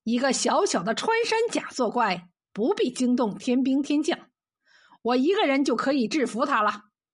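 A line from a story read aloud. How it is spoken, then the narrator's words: Chuckling. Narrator (Chinese): 吕洞宾嘿嘿一笑说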